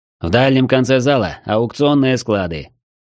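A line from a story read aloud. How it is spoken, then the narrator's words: Bored explanation. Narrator (Russian): скучным голосом пояснил аукционщик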